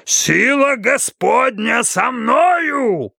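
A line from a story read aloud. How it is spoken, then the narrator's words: Roaring. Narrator (Russian): взревел проповедник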